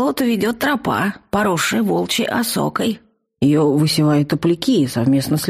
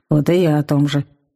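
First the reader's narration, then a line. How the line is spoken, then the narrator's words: Unconvinced troll grumbling. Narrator (Russian): буркнул ничуть не убежденный тролль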